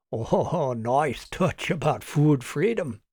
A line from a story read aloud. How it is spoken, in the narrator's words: chuckled Doug quietly